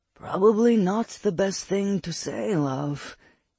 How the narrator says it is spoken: he murmured into her mind

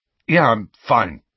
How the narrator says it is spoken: said Harry gruffly

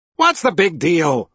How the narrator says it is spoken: Princess Violet snapped

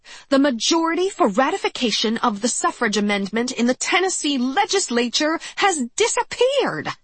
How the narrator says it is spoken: she howled

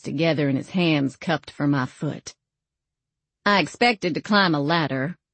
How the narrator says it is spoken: I said, my tone wry

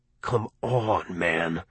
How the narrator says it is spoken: I said in a low voice

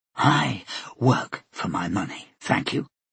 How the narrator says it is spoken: Flora said quietly

